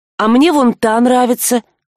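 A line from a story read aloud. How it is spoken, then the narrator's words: Timid. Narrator (Russian): робко заметила Рыска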